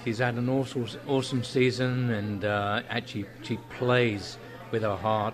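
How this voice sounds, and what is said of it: English accent, not Midwestern. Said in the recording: “You you don't have a midwestern accent. ... I was originally from London.”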